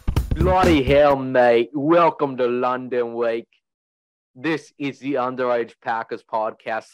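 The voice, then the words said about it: Crappy put-on English accent. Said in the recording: “This crappy English accent ... my English accent”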